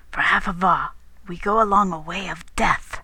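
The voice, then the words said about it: Whispering. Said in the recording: “He began whispering.”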